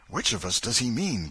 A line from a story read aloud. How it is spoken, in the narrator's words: gasped Huckleberry